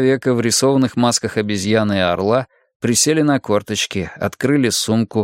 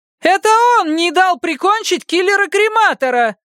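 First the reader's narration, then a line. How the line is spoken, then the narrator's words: Woman's echoing yell. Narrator (Russian): заорал вторя ему еще один голос, на этот раз женский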